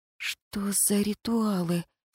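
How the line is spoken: Hoarse question. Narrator (Russian): с хрипом спросила

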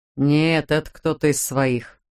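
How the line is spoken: Gloomy conclusion. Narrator (Russian): мрачно заключил Майлз

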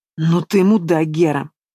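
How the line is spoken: Furious hiss. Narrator (Russian): Не сдерживаясь, прошипел отец, красный, казалось, еще чуть-чуть, и его удар хватит

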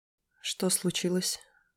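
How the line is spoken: Gentle question. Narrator (Russian): мягко спросила я

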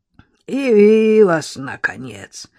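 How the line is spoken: Creaky voice, feigning dying. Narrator (Russian): проскрипел всем своим видом изображая умирающего

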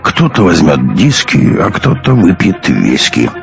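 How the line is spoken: Drunken mumble. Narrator (Russian): пробормотал явно захмелевший

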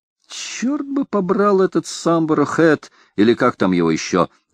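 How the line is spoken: Exclaiming. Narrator (Russian): воскликнул Банс

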